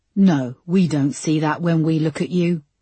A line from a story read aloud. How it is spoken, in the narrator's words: said Peterson coldly